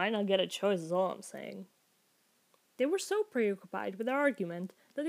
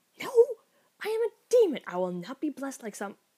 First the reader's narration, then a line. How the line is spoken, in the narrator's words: Crowley sputtered